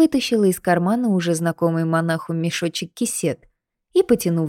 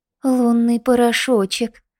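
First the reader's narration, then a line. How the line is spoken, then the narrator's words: Breathy, respectful. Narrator (Russian): выдохнул Ерошка почтительно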